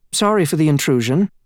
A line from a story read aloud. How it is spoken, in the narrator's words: said quickly